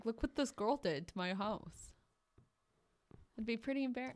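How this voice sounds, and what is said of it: Put-on odd accent. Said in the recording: “What kind of an accent is that?”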